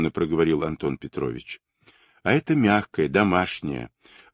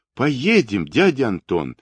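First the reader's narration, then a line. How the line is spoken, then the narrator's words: Joyful. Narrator (Russian): радостно отозвалась Маша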